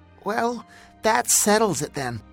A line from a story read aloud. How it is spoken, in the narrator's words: Zane said in a strangely high voice